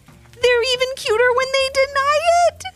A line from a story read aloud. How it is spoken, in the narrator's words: giggled Serafina